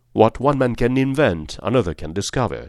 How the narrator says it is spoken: said Holmes

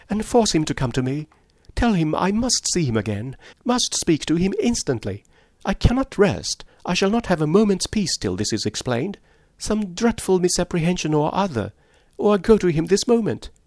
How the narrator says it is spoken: cried, as soon as she could speak

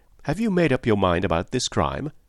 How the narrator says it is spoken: asked earnestly

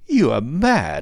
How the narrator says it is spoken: he cried

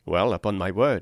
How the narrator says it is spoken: said I

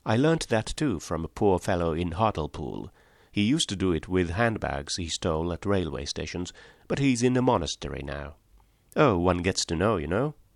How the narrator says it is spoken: he added rather sadly

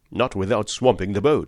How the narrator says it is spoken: said he

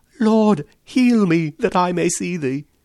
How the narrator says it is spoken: An old man, blind from his birth, cries

